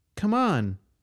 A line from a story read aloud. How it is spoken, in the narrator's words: the girl said in a sweet voice